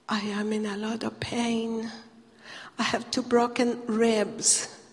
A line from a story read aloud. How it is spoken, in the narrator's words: she whispered in my ear